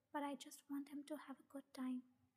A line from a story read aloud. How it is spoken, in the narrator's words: whispered